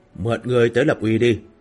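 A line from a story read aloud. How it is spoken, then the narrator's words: Fierce muttering. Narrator (Vietnamese): Lăng Tiếu thần sắc hung lệ lẩm bẩm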